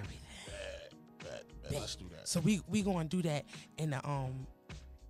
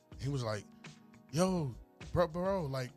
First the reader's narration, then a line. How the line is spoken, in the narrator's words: he stuttered a lot